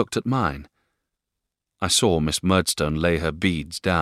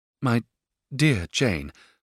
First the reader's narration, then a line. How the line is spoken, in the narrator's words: faltered my mother, a little abashed by the harsh tone of this inquiry